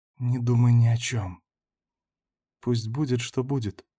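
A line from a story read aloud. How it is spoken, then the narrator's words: Quiet breathy whisper. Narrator (Russian): тихо выдохнуть и прошептать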